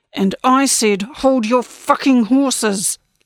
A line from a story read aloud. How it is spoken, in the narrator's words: Lacey growled